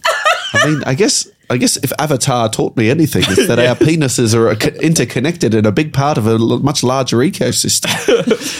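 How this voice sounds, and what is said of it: Put-on Australian accent. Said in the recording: “I can't stop speaking in that accent ... It's Australian. It comes from Australia, originates.”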